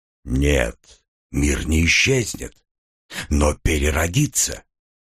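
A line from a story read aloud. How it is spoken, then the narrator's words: Quiet reply. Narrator (Russian): также тихо ответил голос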